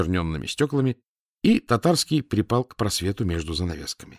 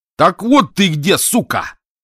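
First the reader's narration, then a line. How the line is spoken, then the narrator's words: Straining shout. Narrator (Russian): надсаживаясь, выкрикнул вошедший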